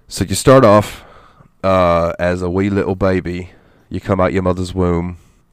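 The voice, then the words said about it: Put-on British accent. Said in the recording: “I did that in a British accent”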